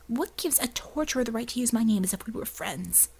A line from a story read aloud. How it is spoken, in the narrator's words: John sighed impatiently